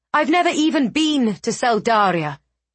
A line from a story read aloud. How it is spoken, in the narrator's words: Eliana snapped